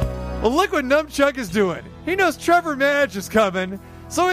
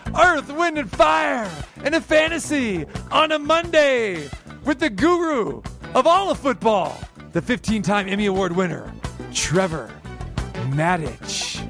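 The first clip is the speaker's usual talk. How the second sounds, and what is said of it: DJ announcer voice. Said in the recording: “Should I go back to my DJ voice?”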